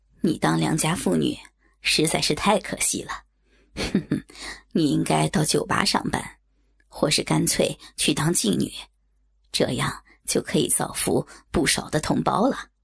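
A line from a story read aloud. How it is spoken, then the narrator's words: Mocking, tsk-tsking. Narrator (Chinese): 排骨的取笑并未停止，他啧啧赞叹着，说道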